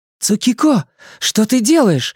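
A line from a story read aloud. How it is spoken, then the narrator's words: Frightened exclamation. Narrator (Russian): испуганно восклицает Селия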